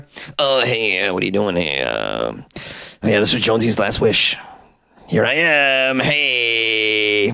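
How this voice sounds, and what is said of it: Beetlejuice impression. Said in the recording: “Beetlejuice impersonator ... Beetlejuice impersonation”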